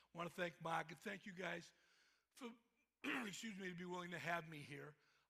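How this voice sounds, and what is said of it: Boston accent. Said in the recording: “there's my Boston accent coming right up”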